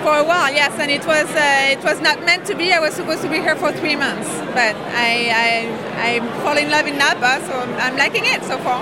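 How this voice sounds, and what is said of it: French accent. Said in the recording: “I'm French. I think you can tell from my accent.”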